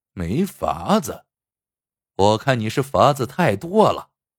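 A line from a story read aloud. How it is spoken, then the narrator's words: Cold scornful snort. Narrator (Chinese): 张飞鼻子里哼了一声，冷冷的说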